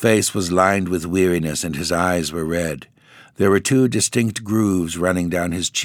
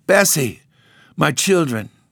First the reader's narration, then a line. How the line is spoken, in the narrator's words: he cried out